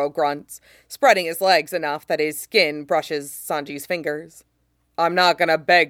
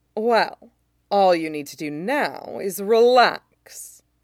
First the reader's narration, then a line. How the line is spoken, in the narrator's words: he purrs